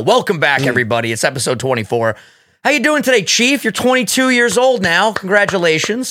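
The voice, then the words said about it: Hoarse strained voice. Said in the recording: “What is wrong with your voice today ... I've been screaming all fucking week. I literally am so hoarse.”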